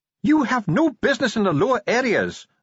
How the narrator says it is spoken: snapped Ardent

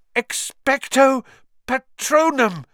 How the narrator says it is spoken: he gasped

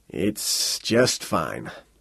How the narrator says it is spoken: Hoagland Ray said miserably

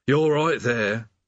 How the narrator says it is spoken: said the demon mournfully

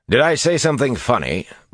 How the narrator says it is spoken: Bashir asked dryly

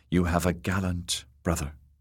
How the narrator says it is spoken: whispered

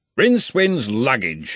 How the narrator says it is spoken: he growled

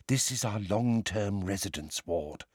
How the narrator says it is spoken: she informed Harry, Ron, Hermione and Ginny in a low voice

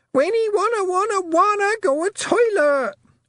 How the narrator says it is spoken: Wentworth shrieked

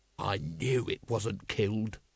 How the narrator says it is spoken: growled Vimes

